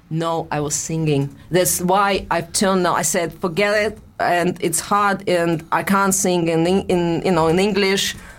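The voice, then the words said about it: Russian accent. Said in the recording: “I think it's my Russian accent ... I think it's my Russian accent”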